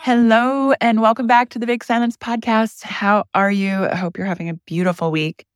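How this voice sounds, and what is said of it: Slightly hoarse, fading voice. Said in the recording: “I am losing my voice. Ish.”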